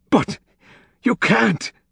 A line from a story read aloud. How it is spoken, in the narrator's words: the Camerlengo had exclaimed